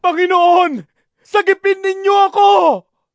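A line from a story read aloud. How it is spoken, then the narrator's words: Shouted. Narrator (Tagalog): Sigaw niya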